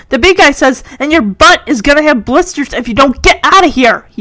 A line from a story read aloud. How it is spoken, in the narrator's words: he yells at Henry